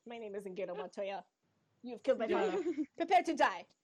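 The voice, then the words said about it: Bad Inigo Montoya impression. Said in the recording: “I probably am doing like the worst impression ever”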